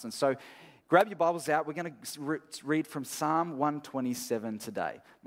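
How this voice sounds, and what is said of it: Rough, strained voice. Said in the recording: “My voice is a little bit cactus”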